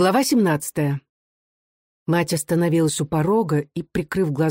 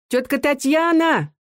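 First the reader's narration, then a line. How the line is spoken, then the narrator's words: Brisk shout. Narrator (Russian): бойко крикнула в избу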